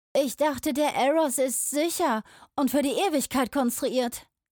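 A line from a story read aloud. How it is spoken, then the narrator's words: Young mage calling out. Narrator (German): rief ein junger Magier Roden zu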